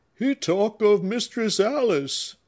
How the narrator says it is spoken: cried Scipio

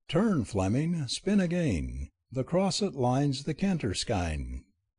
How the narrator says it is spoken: reminding them cheerfully

